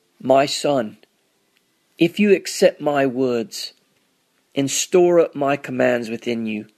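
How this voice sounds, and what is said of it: Put-on English accent. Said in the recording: “These are some recordings I made doing my English accent.”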